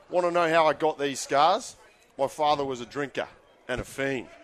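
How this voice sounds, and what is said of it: Australian accent, Heath Ledger's Joker. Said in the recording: “the Heath Ledger part, who's Australian or was Australian ... In Australian accent.”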